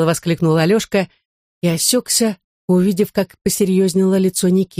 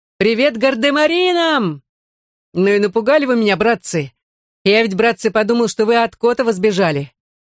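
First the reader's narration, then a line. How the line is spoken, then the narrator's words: Cheerful shout. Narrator (Russian): Саша Белов ... весело кричал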